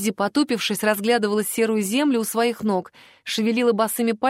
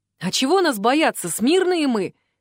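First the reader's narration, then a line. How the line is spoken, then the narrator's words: Joking, then laughing. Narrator (Russian): Не удержался Вик от отличного повода пошутить и тут же захохотал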